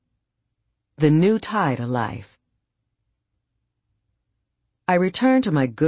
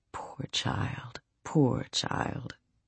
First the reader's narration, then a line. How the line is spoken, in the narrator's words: She laid her old hand gently on my head and murmured